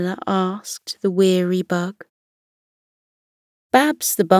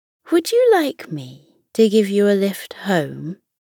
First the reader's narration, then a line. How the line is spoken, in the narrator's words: Fenella offered kindly